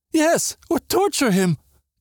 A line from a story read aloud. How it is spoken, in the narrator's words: Katerina sobbed